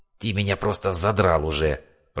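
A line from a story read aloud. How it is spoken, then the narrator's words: Hissed through teeth. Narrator (Russian): прошипел сквозь зубы ересь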